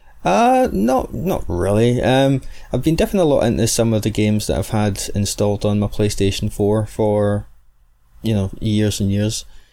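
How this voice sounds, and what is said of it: Rich, soft Scottish accent. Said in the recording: “the soft dulcet tones of my rich Scottish accent”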